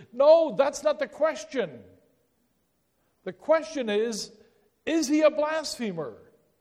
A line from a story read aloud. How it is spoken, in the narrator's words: the scribes and the Pharisees and those that were the Jewish leaders of that day itching to scream out at Pilate, say